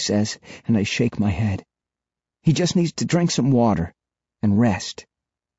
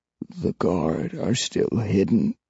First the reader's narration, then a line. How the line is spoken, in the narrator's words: he says softly